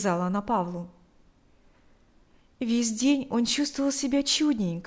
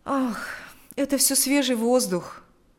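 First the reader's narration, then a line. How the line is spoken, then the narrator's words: Sighing reply. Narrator (Russian): ответил Павел, вздохнув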